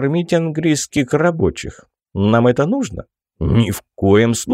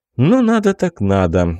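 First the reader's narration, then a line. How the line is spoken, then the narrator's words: Sigh. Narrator (Russian): вздохнул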